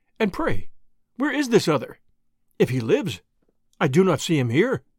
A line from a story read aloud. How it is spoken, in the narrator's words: I answered warmly, adding